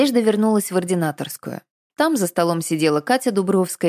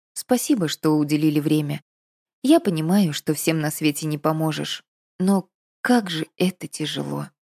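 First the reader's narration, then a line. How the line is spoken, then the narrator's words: Quiet, dejected. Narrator (Russian): тихо сказала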